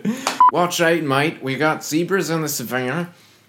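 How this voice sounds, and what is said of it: Bad put-on Australian accent. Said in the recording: “your Australian accent's bad ... Sounds like just like Michael Caine, kind of.”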